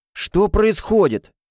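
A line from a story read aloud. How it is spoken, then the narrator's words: Loud question. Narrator (Russian): громко спросил Берт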